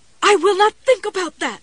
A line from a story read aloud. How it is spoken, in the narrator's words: Jessie screamed at the empty room